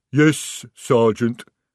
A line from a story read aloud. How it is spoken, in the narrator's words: rumbled the troll